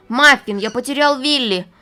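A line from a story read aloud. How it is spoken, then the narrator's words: Exclaimed. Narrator (Russian): воскликнул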